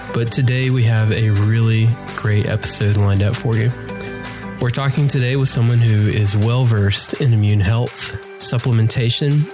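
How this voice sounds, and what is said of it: Ill, strained voice. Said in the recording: “I apologize for my voice. Please bear with me as I'm feeling a little ill today.”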